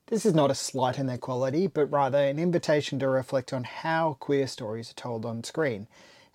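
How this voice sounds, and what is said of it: Australian accent. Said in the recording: “as you probably understand from my accent, from an Australian perspective”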